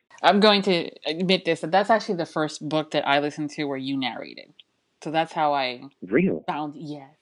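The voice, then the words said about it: Slight New Jersey accent. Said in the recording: “you have a very particular accent ... you have a bit of a Jersey accent”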